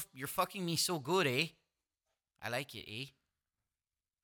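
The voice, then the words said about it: Put-on Canadian accent. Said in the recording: “did they do a Canadian accent when they did the voice?”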